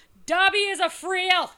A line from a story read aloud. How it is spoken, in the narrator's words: he screams